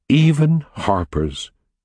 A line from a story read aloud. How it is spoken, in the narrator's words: Kathy said earnestly